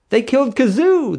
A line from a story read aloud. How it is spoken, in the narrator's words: the bride wailed